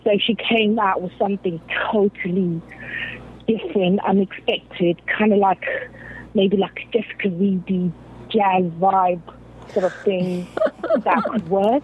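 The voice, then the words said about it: Soothing London British accent. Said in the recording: “I absolutely love your accent. I could listen to you talk all day. I'm so like, soothing. ... you're in London”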